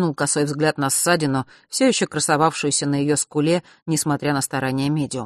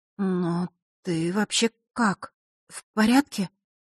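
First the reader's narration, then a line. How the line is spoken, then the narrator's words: Strained, barely audible. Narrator (Russian): едва выдавила из себя Василиса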